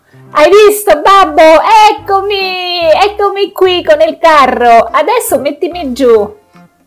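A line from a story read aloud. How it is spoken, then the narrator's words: Shouted. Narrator (Italian): Pollicino ... gridò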